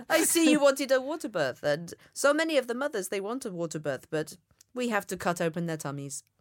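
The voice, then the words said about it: Attempted Swedish accent. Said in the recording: “she was Swedish... I can't do a Swedish accent. This is as near as we're going to get.”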